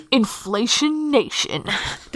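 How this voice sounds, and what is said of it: Announcer-style radio DJ voice. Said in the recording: “in my best radio DJ voice ... Cupping my hands around my mouth like this ... being really close to the microphone”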